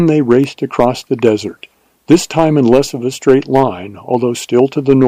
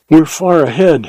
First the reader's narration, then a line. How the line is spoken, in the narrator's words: he panted